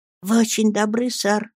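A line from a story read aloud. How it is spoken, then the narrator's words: Expectant whisper. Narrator (Russian): прошептал, предвидя уступки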